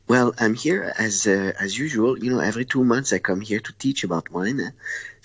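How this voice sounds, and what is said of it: Accented, early-morning voice. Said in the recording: “a gentleman of Verona ... it's 5 o'clock in the morning for me. This is why you have my voice like this. ... I think it suits your accent.”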